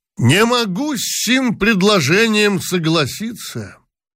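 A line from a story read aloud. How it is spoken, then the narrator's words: Sudden, loud, pompous. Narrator (Russian): вдруг громко и важно сказал генерал Талызин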